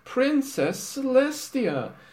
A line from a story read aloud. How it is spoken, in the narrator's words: cried all the ponies in unison